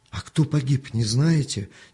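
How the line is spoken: Frightened question. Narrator (Russian): испуганно спросил Артем

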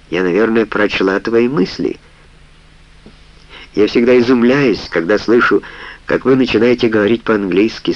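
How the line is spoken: Calm reply. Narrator (Russian): спокойно ответила Сара

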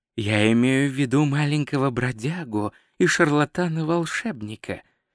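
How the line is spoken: Soft speech. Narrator (Russian): мягко сказал Рок

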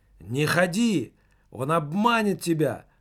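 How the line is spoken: Shouted. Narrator (Russian): выкрикнул Немаркетинг

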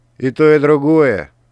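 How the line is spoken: Snapping retort. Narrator (Russian): огрызнулся Ричард

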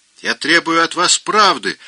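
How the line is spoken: Shrill piglet-like squeal. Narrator (Russian): завизжал обалдуй голоском евнуха, точь в точь, как визжат у нас в деревне поросята, когда их кастрируют

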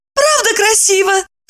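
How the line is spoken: Joyful squealing question. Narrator (Russian): спросила она, радостно взвизгнув

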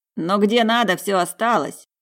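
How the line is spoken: Chuckling. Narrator (Russian): хохотнул сидевший с ним рядом Грок

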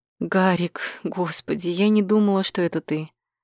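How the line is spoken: Breathless exhale. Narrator (Russian): Выдохнула я

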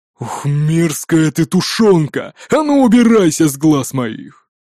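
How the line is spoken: Big man's growl. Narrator (Russian): зарычал здоровяк

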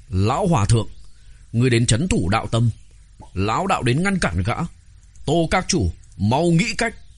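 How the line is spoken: Stern, gritted teeth. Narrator (Vietnamese): Đạo Thánh cắn răng, nghiêm giọng nói

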